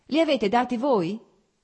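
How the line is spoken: Shouting from behind. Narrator (Italian): gridò da dietro a Blonsky

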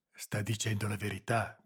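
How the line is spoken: Whispered. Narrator (Italian): bisbigliò Boselli

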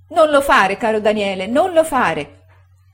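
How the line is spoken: Moved, shouting. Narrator (Italian): gridava commossa la signora Gummidge

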